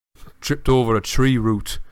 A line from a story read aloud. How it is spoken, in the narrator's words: he said angrily